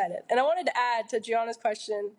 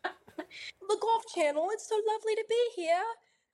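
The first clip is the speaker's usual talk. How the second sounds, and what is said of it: Put-on British accent. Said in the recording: “We talked to each other in British accents ... Say something to each other in those accents.”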